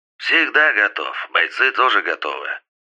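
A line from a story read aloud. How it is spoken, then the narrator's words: Slightly hoarse. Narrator (Russian): ответил Юбер слегка хрипящим голосом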